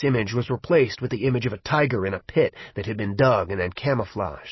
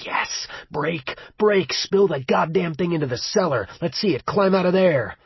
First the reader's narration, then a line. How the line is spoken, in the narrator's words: a part of Will's mind screamed